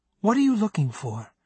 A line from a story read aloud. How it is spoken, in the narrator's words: She asked in a soft tone